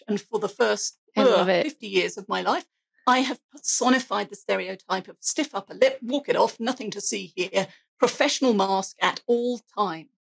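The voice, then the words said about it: English accent. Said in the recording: “I have an accent. I'm English.”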